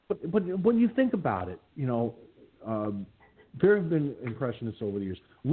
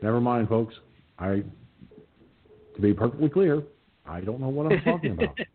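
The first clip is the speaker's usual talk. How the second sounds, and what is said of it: Cheesy imitation of a politician's voice. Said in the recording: “my cheesy Obama impression ... It's cheesy”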